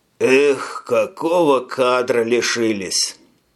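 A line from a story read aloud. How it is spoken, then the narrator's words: Sighed. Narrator (Russian): Вздохнул Саскил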